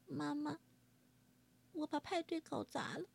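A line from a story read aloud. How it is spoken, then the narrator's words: Quiet princess. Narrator (Chinese): 爱哭公主小声地说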